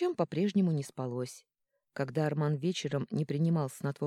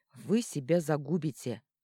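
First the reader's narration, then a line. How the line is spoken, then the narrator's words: Grumbling. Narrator (Russian): ворчал Сильен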